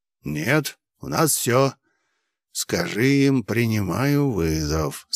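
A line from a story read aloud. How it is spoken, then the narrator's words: Hissed through clenched teeth. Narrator (Russian): сквозь зубы процедил священник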